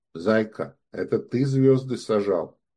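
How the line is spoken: Sudden quiet. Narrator (Russian): вдруг тихо сказал

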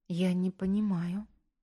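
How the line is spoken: Bewildered whisper. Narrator (Russian): растерянно прошептала она

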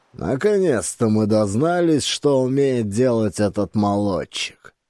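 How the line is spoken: Rough voice. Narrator (Russian): произнес он, и голос его звучал грубо

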